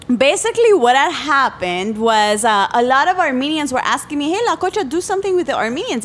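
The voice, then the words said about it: Strong non-native English accent. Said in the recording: “it doesn't sound like your language has improved at all ... they make fun of my accent ... your accent never grows away”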